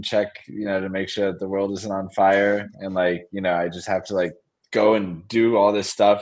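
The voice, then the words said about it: Tired, strained, fading voice. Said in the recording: “I'm exhausted and losing my voice.”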